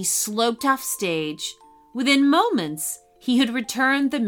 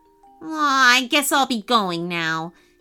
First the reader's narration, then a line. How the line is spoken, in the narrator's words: said miserably